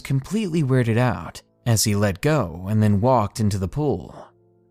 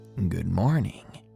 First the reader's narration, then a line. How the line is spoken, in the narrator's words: muttered a chipper